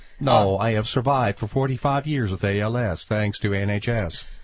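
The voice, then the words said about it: Stephen Hawking speech-synthesizer voice impression. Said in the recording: “And Stephen Hawking ... my voice emulator does not have a British accent ... Nor am I Swedish, despite the fact that I sound that way.”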